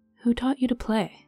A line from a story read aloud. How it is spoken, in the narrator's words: Fauna asked softly